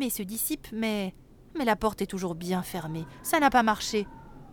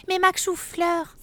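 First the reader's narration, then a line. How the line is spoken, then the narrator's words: Exclaimed. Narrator (French): s'écrie Mademoiselle Toc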